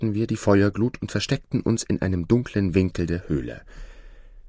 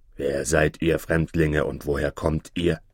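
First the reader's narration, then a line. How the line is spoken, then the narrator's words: Rough snapping voice, cyclops. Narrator (German): fuhr der Zyklop mit rauer Stimme an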